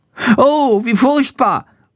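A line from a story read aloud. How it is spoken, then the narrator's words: Horrified cry. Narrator (German): ruft er entsetzt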